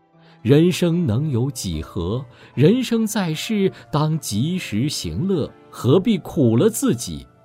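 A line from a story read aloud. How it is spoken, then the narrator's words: Sighing. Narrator (Chinese): 他喟然叹道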